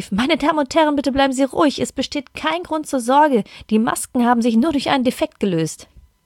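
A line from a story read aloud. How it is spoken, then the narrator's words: Stewardess calling out. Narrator (German): eine Stewardess rief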